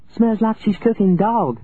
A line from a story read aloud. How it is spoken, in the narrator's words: Lucy Bondurant said, and laughed a dark silk banner of a laugh